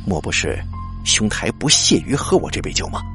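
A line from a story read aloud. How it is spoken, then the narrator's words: Deep grave voice. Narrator (Chinese): 那新郎官沉声说道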